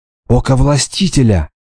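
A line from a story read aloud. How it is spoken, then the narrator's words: Whispered. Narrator (Russian): шепнула Хрисеида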